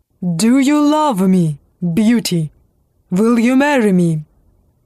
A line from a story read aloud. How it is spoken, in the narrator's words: he said in a gruff voice